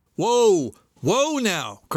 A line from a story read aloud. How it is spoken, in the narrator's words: cried Mr